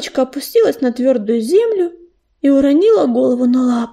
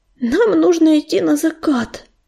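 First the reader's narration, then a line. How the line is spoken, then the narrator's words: Moaning. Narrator (Russian): простонал ежевика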